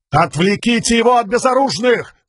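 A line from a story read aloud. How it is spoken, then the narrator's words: Shouted command. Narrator (Russian): крикнул Далинор своим солдатам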